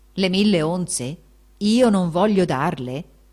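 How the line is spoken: Exclaiming. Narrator (Italian): esclamò allora Giacomo

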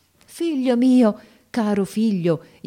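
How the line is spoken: Joyful exclamation. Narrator (Italian): io esclamai allora abbracciandolo con un trasporto di gioia

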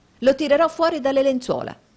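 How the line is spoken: Exclaimed. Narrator (Italian): esclamò Nicola

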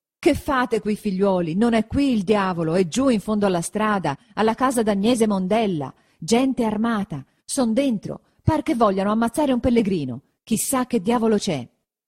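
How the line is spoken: Shouting after catching breath. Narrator (Italian): Quando ebbe ripreso fiato, gridò

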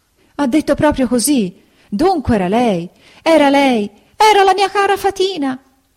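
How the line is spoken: Sobbing, wailing scream. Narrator (Italian): cominciò a urlare Pinocchio, singhiozzando e piangendo dirottamente

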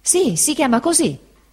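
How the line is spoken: Exclaimed. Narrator (Italian): esclamò il pescatore Peggotty

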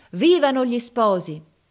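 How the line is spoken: Whole crowd shouting. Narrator (Italian): tutta la gente gridava

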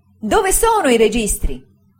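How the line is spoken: Frightening exclamation. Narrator (Italian): egli esclamò con una spaventevole espressione

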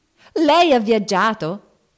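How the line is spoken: Shouted. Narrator (Italian): gridò Joe

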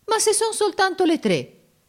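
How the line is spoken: Offended exclamation. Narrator (Italian): esclamò Giorgio in tono d'offesa

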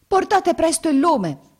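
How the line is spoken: Servant's shout. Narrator (Italian): gridò la sua serva

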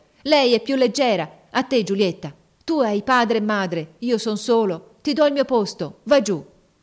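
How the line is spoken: Shout in altered voice. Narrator (Italian): Mario, con una voce che non parea più la sua, gridò

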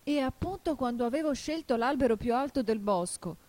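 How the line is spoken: Desperate cry. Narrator (Italian): continuò il colombo con un grido disperato

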